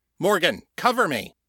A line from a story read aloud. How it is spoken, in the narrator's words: he shouted